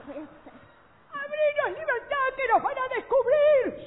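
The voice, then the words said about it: Shouting. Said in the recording (Spanish): “Shh, no grites”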